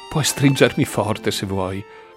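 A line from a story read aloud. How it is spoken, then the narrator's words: Sobbing murmur. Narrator (Italian): mormorò Samantha tra un singhiozzo e l'altro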